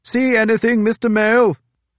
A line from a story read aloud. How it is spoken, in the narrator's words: shouted, leaning close to the thick turban of wool that was the forecastle captain's head